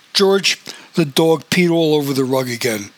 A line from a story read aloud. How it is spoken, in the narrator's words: Marjorie bellowed